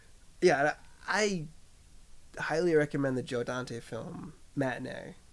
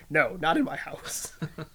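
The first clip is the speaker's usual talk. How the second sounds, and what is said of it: Imitates another person's voice. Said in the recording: “my Hitchcock impression”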